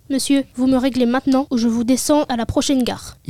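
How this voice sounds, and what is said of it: Southern French accent. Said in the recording (French): “Il y a un accent du sud... un accent du sud. Ça fait sympa, même quand ça ne l'est pas.”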